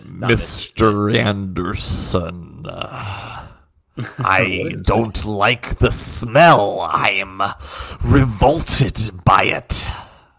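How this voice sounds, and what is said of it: Agent Smith impression, crisp consonants. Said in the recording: “not a bad impression ... Agent Smith ... I nailed the mannerisms, man. I nailed the like way he says and pronounces certain consonants.”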